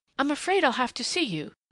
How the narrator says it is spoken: she said desperately

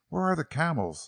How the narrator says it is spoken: Lenora asked breathlessly

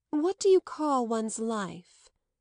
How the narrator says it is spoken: asked Madame Merle

